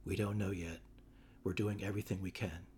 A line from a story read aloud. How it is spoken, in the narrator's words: Nurse, in the same hushed tone